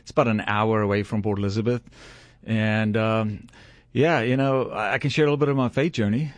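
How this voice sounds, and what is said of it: South African accent. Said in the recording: “you do have a Southern accent ... Well, I'm from the Deep South. ... Yeah, South Africa. So I grew up in South Africa”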